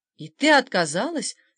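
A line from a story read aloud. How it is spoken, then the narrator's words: Feigned astonished exclamation. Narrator (Russian): воскликнул Бернар, сделанным изумлением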